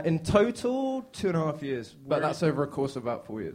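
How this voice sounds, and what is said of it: Speaks with a British accent. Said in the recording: “here you are with an accent ... Stop waxing lyrical about the bloody accent ... How can you demand I ignore your accent and then say bloody?”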